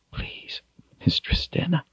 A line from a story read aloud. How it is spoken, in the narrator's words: he whispered